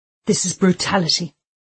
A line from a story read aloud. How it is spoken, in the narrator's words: Hart spluttered